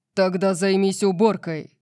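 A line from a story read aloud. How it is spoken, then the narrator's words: Growled. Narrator (Russian): прорычал Орион, и его тон заставил меня задрожать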